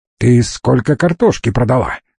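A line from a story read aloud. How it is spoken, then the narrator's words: Rough question. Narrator (Russian): грубо спросил он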